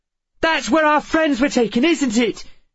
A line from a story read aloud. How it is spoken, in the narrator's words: She shouted